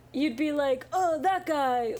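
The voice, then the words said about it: Imitates another person's voice. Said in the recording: “Good impression. ... You're pretty spot on.”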